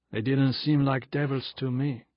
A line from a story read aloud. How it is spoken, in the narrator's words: said Everard testily